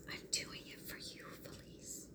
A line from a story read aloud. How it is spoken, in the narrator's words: she whispered